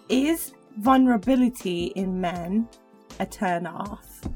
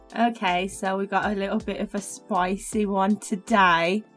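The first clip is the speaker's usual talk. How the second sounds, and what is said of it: Birmingham-sounding English accent. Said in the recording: “I don't know what just happened to my accent there ... You sounded very Birmingham. ... Or even Dudley.”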